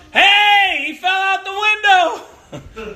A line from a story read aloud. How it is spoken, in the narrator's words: someone shouts